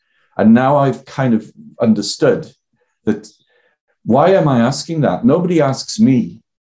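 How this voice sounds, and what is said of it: Welsh accent. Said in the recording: “I've got a Welsh accent”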